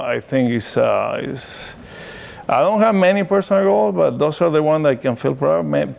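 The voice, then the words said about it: Non-native English accent. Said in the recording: “I still make mistakes, so and my accent is still here.”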